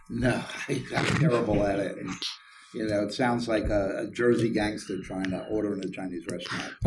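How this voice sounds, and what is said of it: Brooklyn New York accent. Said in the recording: “In case you couldn't tell by the accent, grew up in Brooklyn, New York ... with a Brooklyn accent”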